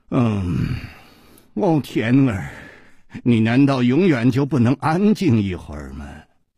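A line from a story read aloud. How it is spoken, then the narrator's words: Low, alluring voice. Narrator (Chinese): 一声低沉却充满了煽动的吸引力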